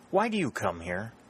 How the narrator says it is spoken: she exclaimed

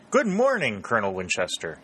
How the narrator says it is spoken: he exclaimed

